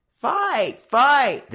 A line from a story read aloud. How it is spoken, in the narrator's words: the gang began to howl again